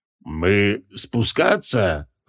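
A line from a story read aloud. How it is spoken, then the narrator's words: Sullen, through gritted teeth. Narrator (Russian): угрюмо процедил он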